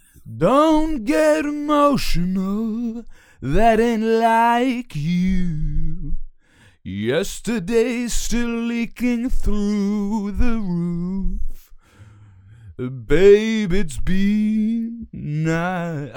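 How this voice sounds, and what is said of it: Sung imitation of another singer. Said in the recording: “my Alex Turner impression. My Alex Turner impression of Alex Turner doing David Bowie, kind of, not really.”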